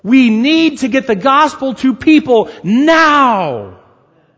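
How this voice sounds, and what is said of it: Raised, shouting voice. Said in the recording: “the more I'm going to raise my voice.”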